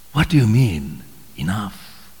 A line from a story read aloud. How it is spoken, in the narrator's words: Fisher went on wearily in his own broken spirit